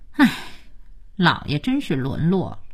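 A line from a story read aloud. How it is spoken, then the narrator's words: Sighing. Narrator (Chinese): 可佳期却叹气说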